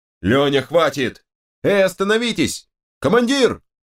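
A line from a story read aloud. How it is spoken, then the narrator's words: Dogs shouting over each other. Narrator (Russian): Псы наперебой кричали что-то, пытаясь образумить дерущихся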